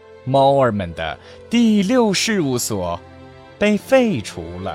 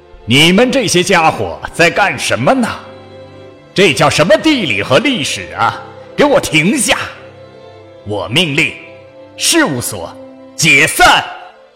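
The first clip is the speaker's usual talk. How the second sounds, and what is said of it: Loud, firm lion character voice. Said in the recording (Chinese): “狮子用洪亮坚定的声音说道”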